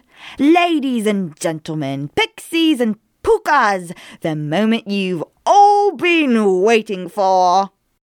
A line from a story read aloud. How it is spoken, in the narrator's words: it cried